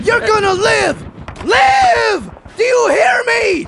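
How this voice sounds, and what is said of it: Shouting. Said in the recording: “You're shouting in my face.”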